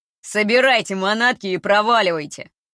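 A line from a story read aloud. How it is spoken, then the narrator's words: Menacing growl. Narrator (Russian): Грозно рычит один из подошедших сотрудников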